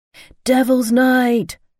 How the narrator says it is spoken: someone screamed

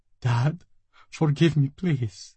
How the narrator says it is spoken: she sobbed

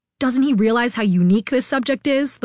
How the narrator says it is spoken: the white coat said angrily

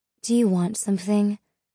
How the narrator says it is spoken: Mal asked Anthony coolly

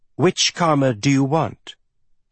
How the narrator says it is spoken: he asked

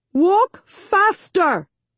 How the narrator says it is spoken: Sister Dora barks

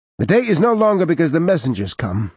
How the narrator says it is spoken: she barked

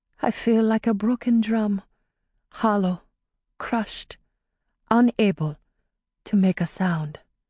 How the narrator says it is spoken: said in barely a whisper

